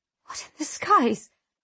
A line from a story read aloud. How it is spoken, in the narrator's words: I whisper